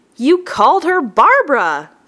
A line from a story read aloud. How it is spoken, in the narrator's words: said one of my laughing co-workers